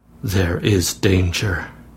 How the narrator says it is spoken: said Aylmer in a low voice

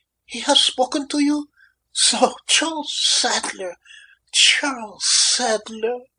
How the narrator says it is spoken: she gasped

